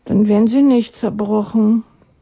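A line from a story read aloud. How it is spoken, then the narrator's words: Sighing. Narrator (German): seufzte er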